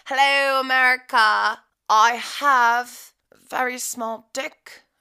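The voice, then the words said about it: Put-on British accent. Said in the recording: “I don't know why I'm using an accent, but it, you know, it just came out... They probably do not have a nice British accent, though.”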